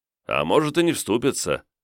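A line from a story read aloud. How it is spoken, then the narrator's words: Snorting. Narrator (Russian): хмыкнул Косорыл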